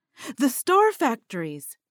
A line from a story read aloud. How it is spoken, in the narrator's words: Delvin exclaimed